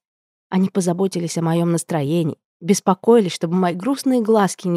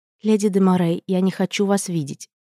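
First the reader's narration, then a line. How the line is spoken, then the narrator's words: Forced calm. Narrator (Russian): произнесла спокойно, но только я знала, чего мне стоило это спокойствие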